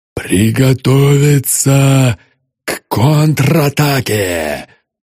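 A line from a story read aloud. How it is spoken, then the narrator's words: Hoarse, straining skull. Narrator (Russian): прохрипел череп, с трудом поднимаясь на ноги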